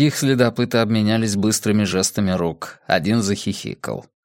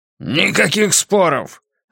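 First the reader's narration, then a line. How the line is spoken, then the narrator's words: Leader's bark. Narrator (Russian): рявкнул предводитель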